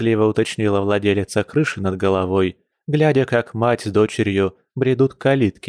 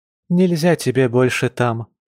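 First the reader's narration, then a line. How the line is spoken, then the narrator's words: Sad sighing mother. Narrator (Russian): печально вздохнула родительница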